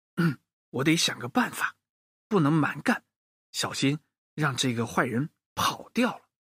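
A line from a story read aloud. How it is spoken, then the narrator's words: Inner muttering. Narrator (Chinese): 洋洋心里嘀咕着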